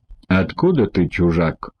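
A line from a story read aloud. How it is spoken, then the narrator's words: Rude question. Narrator (Russian): грубо спросил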